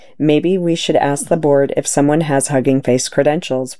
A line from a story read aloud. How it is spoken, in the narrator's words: one asked